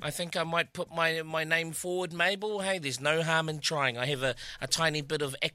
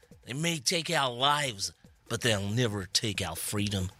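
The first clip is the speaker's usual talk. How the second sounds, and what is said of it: Put-on American-Scottish accent. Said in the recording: “a one-liner with an American accent ... That was my American Scottish accent there for you.”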